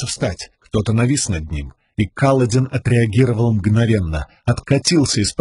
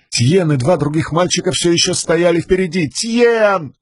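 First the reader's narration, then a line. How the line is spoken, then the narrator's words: Yelling. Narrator (Russian): заорал Каладин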